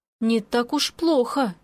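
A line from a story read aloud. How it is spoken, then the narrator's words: Relieved sigh. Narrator (Russian): я вздохнула с облегчением, радуясь, что обойдется без казней, несмотря ни на что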